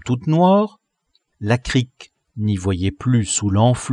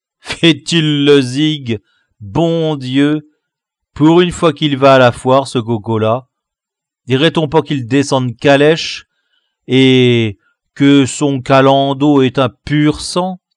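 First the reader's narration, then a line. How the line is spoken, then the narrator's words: Scornful, vengeful sneering laugh. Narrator (French): d'un air de vengeance satisfaite et de profond dédain, continuait à ricaner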